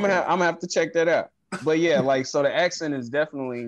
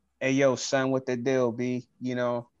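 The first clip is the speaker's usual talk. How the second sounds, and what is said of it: Put-on 90s New York hip-hop accent. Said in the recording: “Like that 95 Fredro Star with the yellow bubble jacket type accent.”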